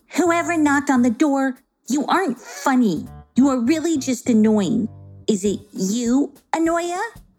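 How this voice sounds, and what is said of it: Furious shouting character voice. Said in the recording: “Grumpy Lena shouted in a furious voice.”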